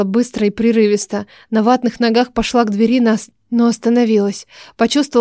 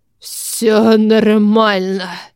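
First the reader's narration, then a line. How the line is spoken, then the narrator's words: Hoarse. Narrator (Russian): сказал он хрипло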